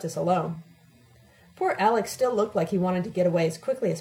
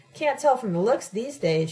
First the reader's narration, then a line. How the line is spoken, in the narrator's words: she exclaimed vengefully